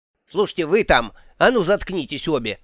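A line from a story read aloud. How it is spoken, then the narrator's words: Mother barking. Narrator (Russian): рявкнула матушка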